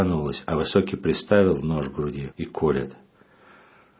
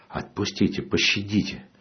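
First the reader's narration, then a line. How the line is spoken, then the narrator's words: Whispered plea. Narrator (Russian): шепотом говорю им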